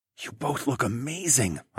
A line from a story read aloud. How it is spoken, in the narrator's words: whispered